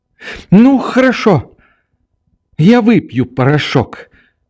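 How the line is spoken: Sudden weak little cry. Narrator (Russian): вскрикнула вдруг своим слабым голоском Нелли

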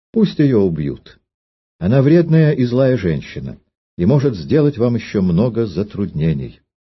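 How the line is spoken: Calm, simple. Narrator (Russian): Королева Клара просто и спокойно сказала

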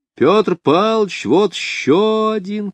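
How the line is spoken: Shouting schoolchildren. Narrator (Russian): кричали школьники

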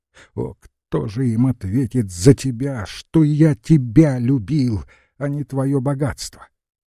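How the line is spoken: Sobbing shout. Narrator (Russian): отец Спиридонова, рыдая, закричал

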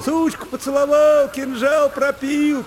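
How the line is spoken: Boys shouting. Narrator (Russian): кричали мальчишки

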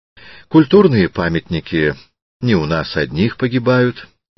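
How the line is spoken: Calm objection. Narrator (Russian): спокойно возражал Природов

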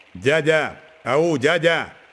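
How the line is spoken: Sharp shout from above. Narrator (Russian): резко крикнул сверху Лука, обращая на себя внимание

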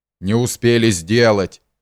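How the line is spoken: Angry retort. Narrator (Russian): злобно переговорил господин Бахчеев

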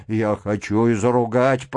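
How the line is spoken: Muttering. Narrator (Russian): пробормотал Кириллов

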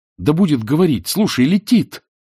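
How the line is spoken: Near cry. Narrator (Russian): почти вскрикнул Левин

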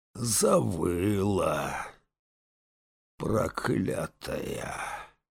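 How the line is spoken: Slow hoarse angry voice. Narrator (Russian): Неторопливо отозвался сиплый и злой

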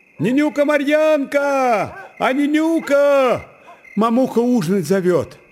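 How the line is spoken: Child shouting. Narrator (Russian): прокричал, подбегая к казачкам, маленький брат Марьяны

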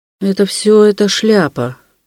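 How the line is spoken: Inspired mutter. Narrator (Russian): пробормотал он как бы вдохновенный

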